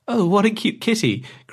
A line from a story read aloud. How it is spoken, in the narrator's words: cried the girl